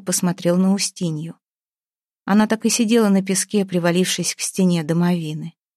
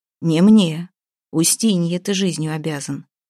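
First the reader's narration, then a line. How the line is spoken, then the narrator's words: Plain. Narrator (Russian): ответил Ваята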